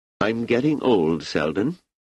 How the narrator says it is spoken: he said

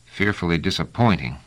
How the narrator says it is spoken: muttered Trevise

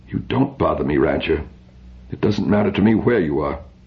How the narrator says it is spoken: replied coldly

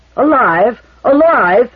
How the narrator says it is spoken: thundered Dagobert

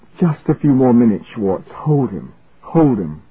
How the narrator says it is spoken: He gasped

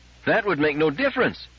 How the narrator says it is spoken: cried Herbie

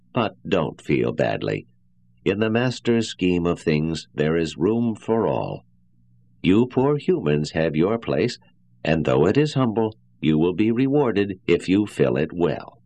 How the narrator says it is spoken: he said in a kindly tone

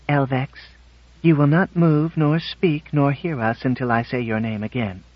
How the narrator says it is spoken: She said quietly

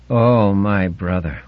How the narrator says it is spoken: the moan to which it returned over and over again

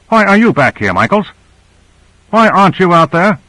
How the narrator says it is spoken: harshly

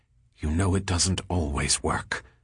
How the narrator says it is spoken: Compor flushed and muttered

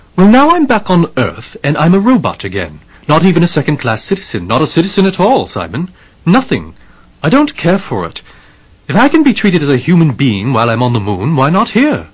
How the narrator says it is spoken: Andrew said sharply

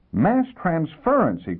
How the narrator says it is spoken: he cried

